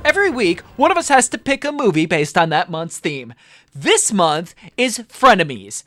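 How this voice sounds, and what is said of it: Sales announcer voice. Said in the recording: “that was my sales announcer voice”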